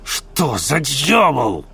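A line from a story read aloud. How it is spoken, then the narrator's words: Bearded man barking. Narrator (Russian): рявкнул бородач, все это время молчавший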